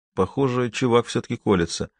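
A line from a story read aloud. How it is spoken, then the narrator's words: Soft whistle, then speaking. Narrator (Russian): тихо присвистнул и сказал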